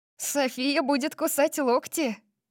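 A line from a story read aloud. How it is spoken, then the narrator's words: Teasing. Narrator (Russian): поддразнила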